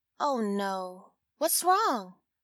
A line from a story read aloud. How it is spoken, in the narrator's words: the client asked